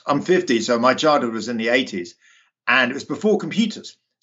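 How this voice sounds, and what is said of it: British London accent. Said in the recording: “I grew up, you can probably tell from my accent, in the UK, in London, actually.”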